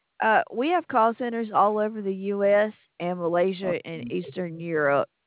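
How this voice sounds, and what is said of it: Southern US accent. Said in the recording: “I kind of figured that accent was from the South.”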